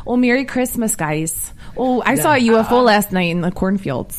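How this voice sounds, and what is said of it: Put-on Wisconsin accent. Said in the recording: “I'm doing my best accent. ... That's pretty good. ... It is Wisconsin.”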